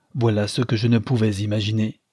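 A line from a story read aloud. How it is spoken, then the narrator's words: Rough voice. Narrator (French): dit le ministre d'une voix rude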